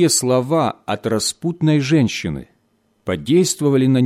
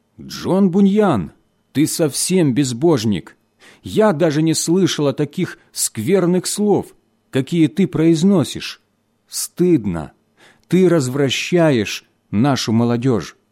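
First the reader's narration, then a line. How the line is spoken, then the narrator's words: Indignant exclamation. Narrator (Russian): женщина с негодованием воскликнула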